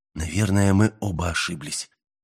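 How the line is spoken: Calm voice. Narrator (Russian): продолжил Мэлори спокойным голосом

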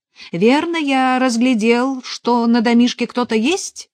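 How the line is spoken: Cheerful resonant baritone shout. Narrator (Russian): Весело крикнул незнакомец звучным баритоном

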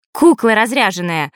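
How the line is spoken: Snapping back. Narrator (Russian): огрызнулась Василиса

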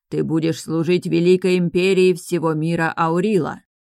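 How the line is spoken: Commanding tone. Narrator (Russian): приказным тоном произнес появившийся незнакомец

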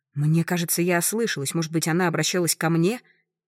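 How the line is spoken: Repeats loudly. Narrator (Russian): Хозяйка громко повторяет

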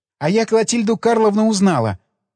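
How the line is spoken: Joyful announcement. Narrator (Russian): радостно объявила девушка

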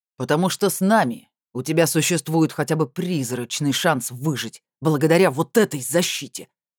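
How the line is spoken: Sudden bark. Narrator (Russian): внезапно рявкнул Года

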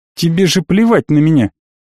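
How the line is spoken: Indifferent snort. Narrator (Russian): хмыкнул я равнодушно

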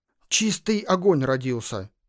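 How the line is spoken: Breathless exhale. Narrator (Russian): выдохнула Уруна

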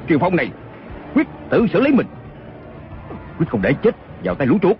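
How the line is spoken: Thunderous roaring shout. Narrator (Vietnamese): Chàng gầm lên một tiếng như sấm nổ, quát lớn

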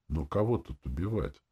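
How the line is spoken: Even tone. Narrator (Russian): спрашивая ровным тоном

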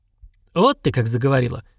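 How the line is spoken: Suddenly sober voice. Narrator (Russian): неожиданно трезвым голосом произнесла Нинуха

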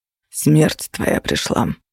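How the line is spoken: Male voice. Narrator (Russian): заметила смерть мужским голосом

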